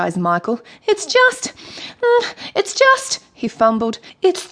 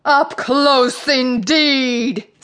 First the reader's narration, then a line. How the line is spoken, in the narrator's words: sneered the Sea Queen